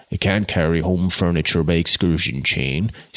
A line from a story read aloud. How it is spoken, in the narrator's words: said, in a thick voice, her husband, the landlord of the Three Horns, Lambeth